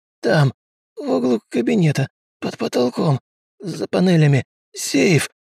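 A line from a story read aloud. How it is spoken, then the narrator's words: Gasping moan. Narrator (Russian): Хватая воздух ртом, простонал Штольц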